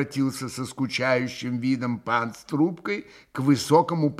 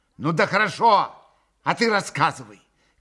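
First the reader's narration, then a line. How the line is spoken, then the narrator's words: Woman shouting. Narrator (Russian): крикнула Грушенька Максиму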